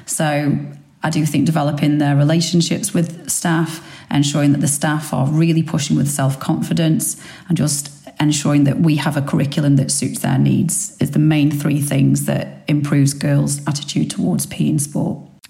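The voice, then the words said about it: Stoke-on-Trent English accent. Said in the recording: “I'm picking up an accent which isn't local to the area ... I'm from Stoke-on-Trent originally ... I've not lost my accent”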